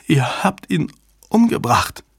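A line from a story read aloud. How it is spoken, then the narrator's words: Stammering woman. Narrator (German): stammelte sie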